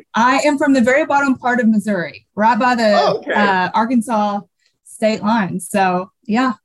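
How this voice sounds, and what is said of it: Slight Southern US accent. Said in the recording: “I'm hearing a little Southern accent.”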